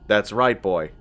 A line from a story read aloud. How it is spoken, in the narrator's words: the master replied, his voice deep and mellow